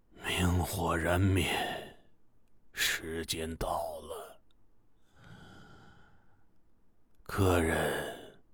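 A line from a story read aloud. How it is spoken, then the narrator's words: Sighing. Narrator (Chinese): 老板叹了口气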